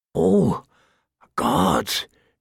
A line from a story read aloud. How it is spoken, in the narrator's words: he moaned